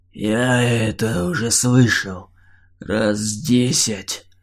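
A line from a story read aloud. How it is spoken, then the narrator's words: Creaking voice. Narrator (Russian): Проскрипел Драугр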